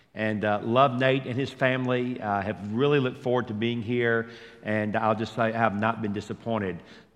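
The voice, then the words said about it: Mild Georgia Southern accent. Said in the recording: “where's that accent? It's Georgia. Now, it's been mitigated a little bit ... we add like 40 syllables or 40 vowels to every word”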